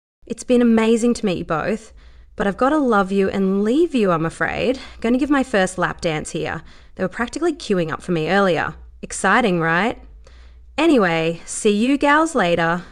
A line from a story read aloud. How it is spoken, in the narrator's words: Brittany said in the same cheerful tone